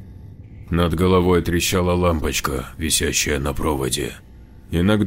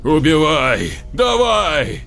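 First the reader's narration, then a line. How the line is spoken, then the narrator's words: Hurt, angry shout. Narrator (Russian): В порыве обиды и злости закричал привязанный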